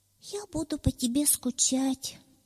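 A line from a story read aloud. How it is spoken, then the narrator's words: Sighing, near tears. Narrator (Russian): вздохнул кролик и чуть не заплакал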